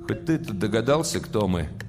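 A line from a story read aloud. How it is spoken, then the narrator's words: Glum question. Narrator (Russian): спросил Малешкин уныло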